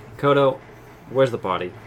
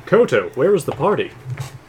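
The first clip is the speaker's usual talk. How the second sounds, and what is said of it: Put-on fictional alien character voice. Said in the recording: “Let me try my best Arcanian voice.”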